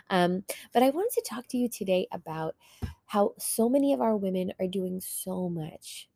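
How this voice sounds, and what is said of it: Slightly raspy, under-the-weather voice. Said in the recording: “You might hear from my voice that I am a little bit under the weather ... forgive me for my raspy voice a tad bit”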